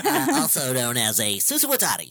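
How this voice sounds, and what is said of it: Nerdy put-on voice. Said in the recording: “Can you rephrase that in nerd voice?”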